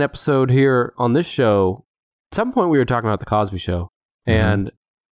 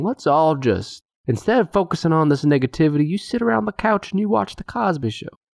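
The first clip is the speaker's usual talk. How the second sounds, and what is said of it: Imitates another person's voice. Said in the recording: “my very bad Bill Cosby impersonation”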